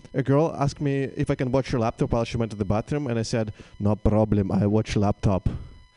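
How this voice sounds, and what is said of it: Russian accent. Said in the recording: “I am Russian ... They hear my accent”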